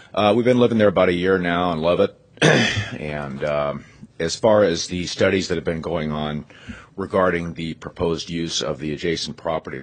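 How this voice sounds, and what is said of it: Hoarse, unusually low sick voice. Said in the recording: “sorry for my voice. I'm kind of fighting something myself, so hitting the low notes here.”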